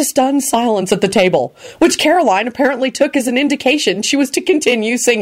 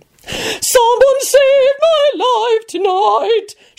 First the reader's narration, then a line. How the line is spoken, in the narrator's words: screeched passionately